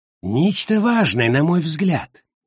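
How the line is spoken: Hoarse, ragged breath. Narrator (Russian): хрипло, прерывисто вздохнув, он сообщил

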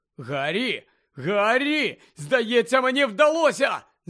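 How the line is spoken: Shouted. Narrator (Ukrainian): закричав Шеймус

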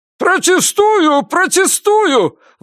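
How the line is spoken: Desperate appeal. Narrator (Russian): взывал к судье Бакли, с отчаянием

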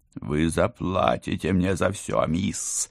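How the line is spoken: Growled. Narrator (Russian): зарычал он

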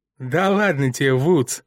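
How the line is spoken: Giggling. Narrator (Russian): хихикнул Скотт

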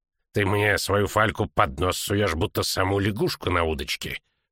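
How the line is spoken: Grumbling. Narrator (Russian): проворчал Винсер Имбра

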